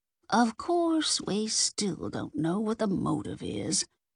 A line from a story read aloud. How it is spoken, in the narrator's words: Ida mumbled around a mouthful of cream cheese brownie